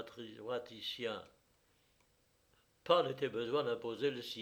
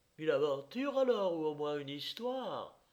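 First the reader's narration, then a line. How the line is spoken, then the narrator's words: Lady exclaiming. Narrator (French): s'écria madame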